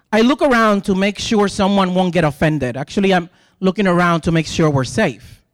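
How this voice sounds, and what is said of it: Puerto Rican accent, rolled R's. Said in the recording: “I've had people compliment my accent... Can you roll your R again?... stop telling me how cute my accent is. So I'm a gay Puerto Rican”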